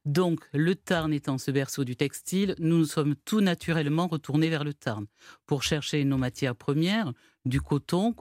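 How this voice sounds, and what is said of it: Toulouse southern French accent. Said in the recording (French): “nous sommes Toulousains, comme vous l'entendez peut-être à mon accent.”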